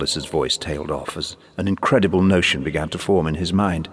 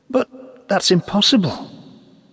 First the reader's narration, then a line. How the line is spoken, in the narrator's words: stammered